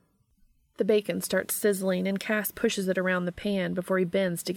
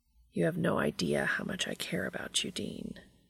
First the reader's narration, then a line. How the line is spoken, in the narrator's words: he says quietly